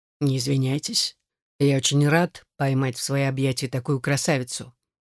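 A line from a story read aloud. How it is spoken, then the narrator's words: Very deep, stirring voice. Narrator (Russian): произнес очень низким голосом, будоражащим сознание и тело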